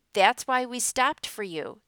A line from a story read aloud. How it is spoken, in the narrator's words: the conductor called out angrily